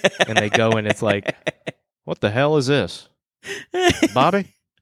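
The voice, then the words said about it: Impression of cartoon character Hank Hill. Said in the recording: “That impression of Hank Hill was really good.”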